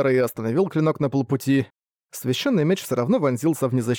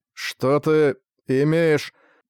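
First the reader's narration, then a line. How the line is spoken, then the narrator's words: Strained, forced utterance. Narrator (Russian): сумел выдавить из себя Лебрахард и Шанеладан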